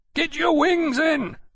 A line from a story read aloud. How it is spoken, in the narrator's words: Granby yelled through his speaking trumpet